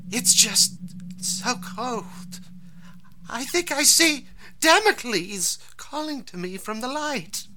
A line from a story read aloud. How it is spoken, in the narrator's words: Shabrina says weakly